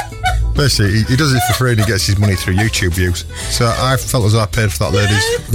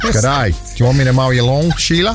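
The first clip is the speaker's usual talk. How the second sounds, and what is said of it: Put-on Australian accent. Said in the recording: “An Australian guy”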